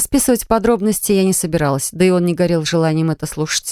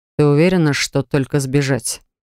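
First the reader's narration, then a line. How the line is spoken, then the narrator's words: Dry inquiry. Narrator (Russian): сухо поинтересовался он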